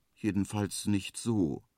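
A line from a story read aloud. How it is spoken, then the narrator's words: Quiet. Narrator (German): sagt der Igel leise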